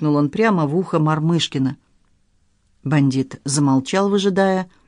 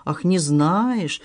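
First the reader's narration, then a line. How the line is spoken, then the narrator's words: Angry bandit, through teeth. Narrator (Russian): зло процедил бандит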